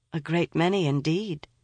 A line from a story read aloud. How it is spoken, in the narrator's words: said her companion with a sigh